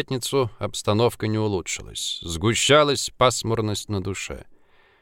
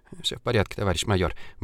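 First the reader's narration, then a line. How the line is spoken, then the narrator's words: Mumbling. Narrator (Russian): бормотал он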